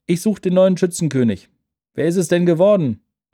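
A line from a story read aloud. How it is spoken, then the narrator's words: Called back. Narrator (German): rief einer zurück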